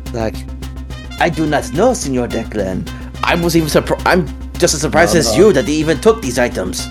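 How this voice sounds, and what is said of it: Put-on character accent. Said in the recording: “I'm also loving the accent”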